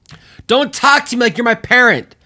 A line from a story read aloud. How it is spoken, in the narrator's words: Andy shouted